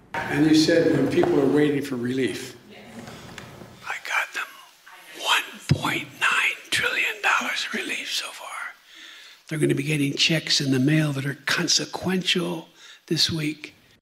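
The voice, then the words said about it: Creepy whispering voice. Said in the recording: “Why is he whispering? ... that whispering ... it's just so creepy”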